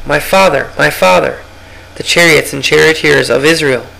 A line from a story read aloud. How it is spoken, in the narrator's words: Elisha cried out